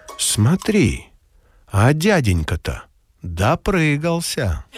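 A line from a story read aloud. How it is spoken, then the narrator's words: Quiet child's voice. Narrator (Russian): Сестренка тихонько сказала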